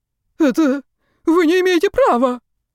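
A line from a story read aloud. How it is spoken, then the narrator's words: Pitiful whine. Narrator (Russian): жалко проскулил пойманный студент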